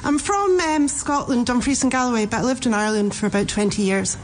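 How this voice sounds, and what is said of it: Scottish accent with Irish influence. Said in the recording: “It's a lovely accent. Very nice.”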